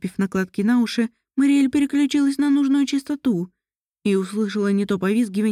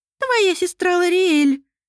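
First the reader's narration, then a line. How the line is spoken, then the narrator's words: Small animal squeaking. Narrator (Russian): пропищал зверек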